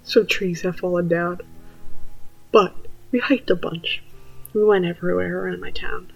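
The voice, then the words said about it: Sleepy, softer voice. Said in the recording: “I'm a little sleepy ... my voice is often a bit softer when I'm sleepy. It's a little bit less awkward”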